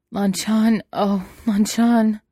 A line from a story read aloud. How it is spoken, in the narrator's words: he moaned